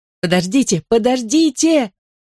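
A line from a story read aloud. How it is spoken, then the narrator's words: Urgent desperate shout. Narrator (Russian): закричала, страстно желая, чтобы автобус задержался на пару мгновений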